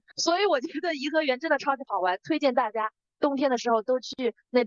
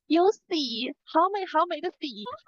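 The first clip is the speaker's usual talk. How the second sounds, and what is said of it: Imitated Cantonese or Fujian accent. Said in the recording (Chinese): “很明显是广东还是福建那边人的口音”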